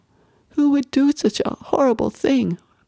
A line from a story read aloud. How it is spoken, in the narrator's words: Bethany wailed